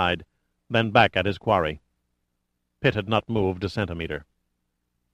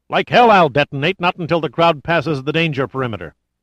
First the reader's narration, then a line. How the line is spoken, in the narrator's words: He was shouting at an aide of General Chandler's